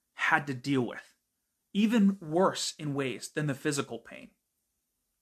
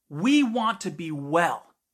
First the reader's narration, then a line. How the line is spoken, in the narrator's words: screamed